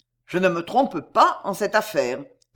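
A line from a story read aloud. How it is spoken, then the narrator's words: Cold assertion. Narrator (French): affirma froidement Pardaillan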